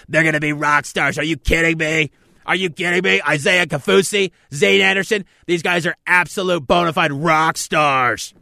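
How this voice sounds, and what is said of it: Scott Farrell impression, hyped announcer. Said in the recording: “I can go with my Scott Farrell voice. ... I should do my entire show in a Scott Farrell voice.”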